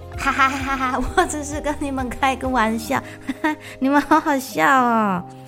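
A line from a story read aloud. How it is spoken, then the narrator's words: Hearty laughter. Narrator (Chinese): 他捧着肚子哈哈大笑，说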